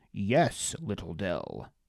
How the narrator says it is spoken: Rox rumbled

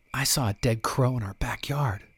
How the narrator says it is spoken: Rosie whispered to me

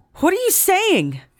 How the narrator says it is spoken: Isabel shouted

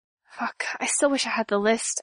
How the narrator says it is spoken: I muttered

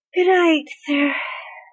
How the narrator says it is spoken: Merlin slurred, his ability to form complete words apparently having given way to his desperate need to sleep at last

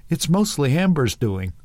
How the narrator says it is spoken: Amber chuckled

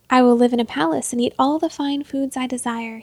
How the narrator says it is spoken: he said

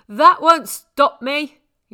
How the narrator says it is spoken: he shouted

